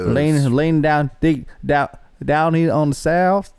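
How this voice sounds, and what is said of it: Thick put-on hillbilly Southern accent. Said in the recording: “my hillbilly accent, it's just... I'm laying out thick”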